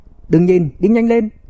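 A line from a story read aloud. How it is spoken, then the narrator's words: Shouted through gritted teeth. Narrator (Vietnamese): Bạch Tiêu Tiêu hét lên, nghiến răng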